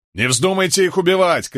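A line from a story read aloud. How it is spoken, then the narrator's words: Shouted. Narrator (Russian): крикнул Кэт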